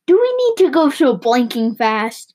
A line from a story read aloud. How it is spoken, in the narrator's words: Rashid, the storyteller, cried out